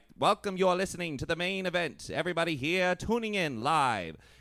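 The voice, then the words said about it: Old-time radio announcer voice. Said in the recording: “radio announcers back in the day had that like distinct voice ... you had to really draw out your consonants”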